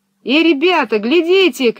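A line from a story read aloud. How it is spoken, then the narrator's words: Shouting. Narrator (Russian): крикнул Пеппи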